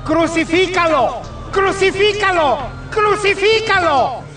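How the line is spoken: Crowd shouting. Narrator (Spanish): Ellos gritaron

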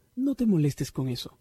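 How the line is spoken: Plain. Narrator (Spanish): dijo Kelsey

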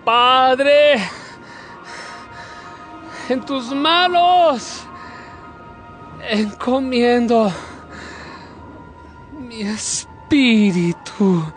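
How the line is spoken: Crying out. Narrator (Spanish): lanzó un grito y dijo

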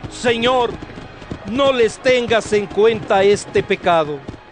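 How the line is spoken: Loud cry. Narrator (Spanish): gritó con voz fuerte

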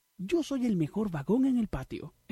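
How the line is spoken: Exclaimed. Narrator (Spanish): exclamó

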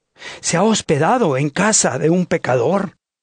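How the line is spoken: Crowd murmuring. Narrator (Spanish): todos murmuraban y decían

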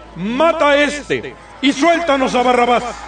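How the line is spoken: Crowd shouting in unison. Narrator (Spanish): empezaron a gritar todos a una

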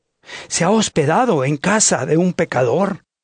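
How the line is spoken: Crowd murmuring. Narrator (Spanish): todos murmuraban y decían

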